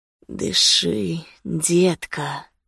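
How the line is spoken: Hoarse whisper in ear. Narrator (Russian): хрипло прошептал он мне на ухо

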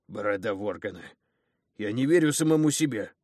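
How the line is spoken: Warrior's growl. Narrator (Russian): рыкнул воин

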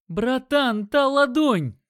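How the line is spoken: Shouted. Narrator (Russian): крикнул он

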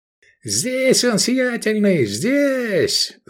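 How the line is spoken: Yelled. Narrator (Russian): заорал в атриуме мир Арзал

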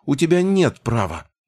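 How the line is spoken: Dismissive snort. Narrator (Russian): гном хмыкнул

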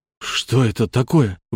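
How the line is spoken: Breathless exhale. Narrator (Russian): выдохнул я

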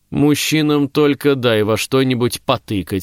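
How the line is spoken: Calm agreement. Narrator (Russian): спокойно поддакнула Дагна

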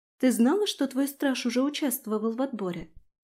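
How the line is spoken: Plain question. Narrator (Russian): спросила Аби

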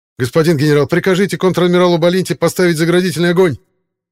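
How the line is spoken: Panicked outburst. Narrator (Russian): Окончательно теряя самообладание, выкрикнул

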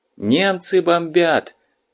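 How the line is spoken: Shouting. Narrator (Russian): закричал дежурный

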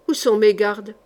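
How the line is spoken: Curt tone. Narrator (French): d'un ton bref

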